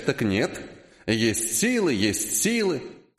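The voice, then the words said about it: Mocking, unusually nasty voice. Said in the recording (Russian): “Передразнил он меня необычайно противным голосом”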